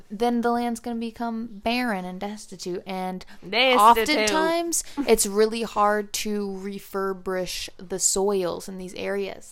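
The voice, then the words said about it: Slight Southern US accent. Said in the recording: “You have a little southern accent happening ... right now ... It just came out of you like a few times.”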